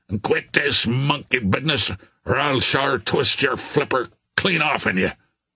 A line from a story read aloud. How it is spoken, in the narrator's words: growled Billy Byrne